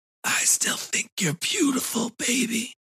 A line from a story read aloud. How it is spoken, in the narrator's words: he'd whispered